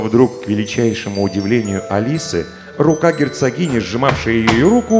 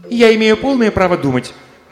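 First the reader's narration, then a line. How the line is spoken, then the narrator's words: Sharp, fed up. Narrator (Russian): резко сказала Алиса, которой все это страшно надоело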